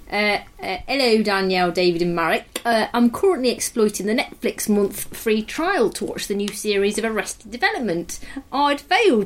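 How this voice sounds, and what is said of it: Put-on East Midlands English accent. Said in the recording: “I'm going to do an East Midlands accent”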